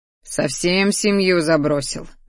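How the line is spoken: Grumbling. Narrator (Russian): заворчал он

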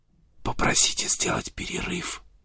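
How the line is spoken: Whisper. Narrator (Russian): прошептал Сент-Винсент

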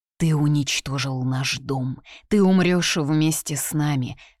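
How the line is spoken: Hissing. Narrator (Russian): шипели

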